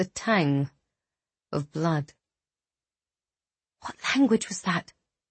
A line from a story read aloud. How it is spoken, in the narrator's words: Eliana whispered to Remy